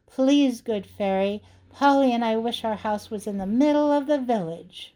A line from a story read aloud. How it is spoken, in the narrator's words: cried